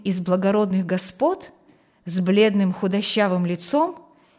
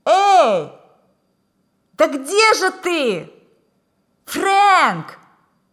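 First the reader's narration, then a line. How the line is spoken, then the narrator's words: Shouting again. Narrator (Russian): Еще раз крикнул Холл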